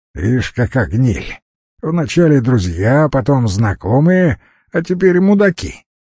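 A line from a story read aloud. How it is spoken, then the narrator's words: Young man's snort from behind. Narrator (Russian): хмыкнул парень сзади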